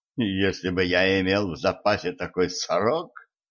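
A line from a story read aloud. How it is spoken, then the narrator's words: Short chuckle. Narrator (Russian): коротко хохотнул Джон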